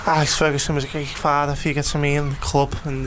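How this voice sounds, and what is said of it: Wayne Rooney impression, Scouse accent. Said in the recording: “that's quite good... Sounds scouse.”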